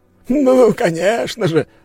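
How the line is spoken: Exclamation. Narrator (Russian): воскликнул он

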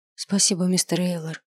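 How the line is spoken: Quiet. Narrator (Russian): сказал тихо

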